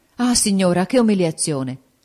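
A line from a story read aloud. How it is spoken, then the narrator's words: Horrified exclamation. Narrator (Italian): esclamò Ferrante con una specie d'orrore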